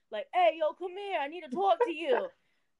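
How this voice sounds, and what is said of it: Put-on New York accent. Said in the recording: “I've been told that I sound like I'm from New York ... they would talk like this, yo”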